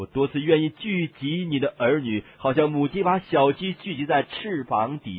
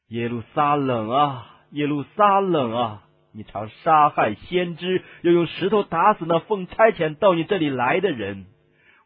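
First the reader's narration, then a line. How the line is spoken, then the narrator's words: Sorrowful, loving sigh. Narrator (Chinese): 他神圣的怜悯、热切的爱情发出了悲哀的叹息，说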